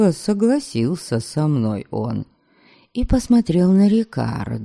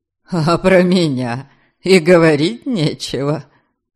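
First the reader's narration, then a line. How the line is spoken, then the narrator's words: Chuckling. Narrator (Russian): Хохотнул тот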